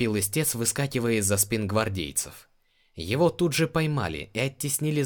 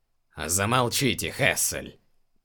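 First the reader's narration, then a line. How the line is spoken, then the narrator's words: Annoyed grumble. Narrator (Russian): проворчал император, досадливо морщась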